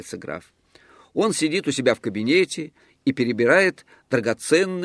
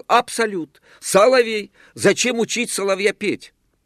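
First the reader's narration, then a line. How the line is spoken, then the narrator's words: Excited passionate shouting. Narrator (Russian): Он восторженно вскакивал и темпераментно кричал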